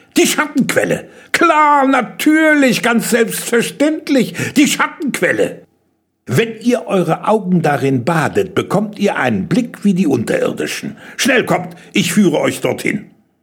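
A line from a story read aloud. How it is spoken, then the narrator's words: Delighted cry. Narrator (German): schrie er vergnügt auf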